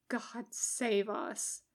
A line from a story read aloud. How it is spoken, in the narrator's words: Jim mutters under his breath